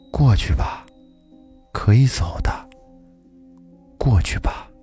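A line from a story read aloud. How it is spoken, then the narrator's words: Soft voice. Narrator (Chinese): 那声音很轻，在说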